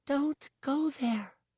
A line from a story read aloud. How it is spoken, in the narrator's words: she whispered